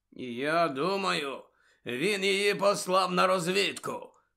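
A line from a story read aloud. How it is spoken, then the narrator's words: Growling. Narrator (Ukrainian): почулося гарчання Муді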